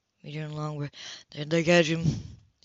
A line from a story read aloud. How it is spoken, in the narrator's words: smiled sadly